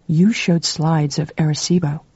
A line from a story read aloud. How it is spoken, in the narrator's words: said dreamily